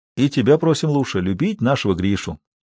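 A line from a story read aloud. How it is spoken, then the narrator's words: Cheerful, smirking. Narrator (Russian): Исаев не сдержав больше усмешки весело сказал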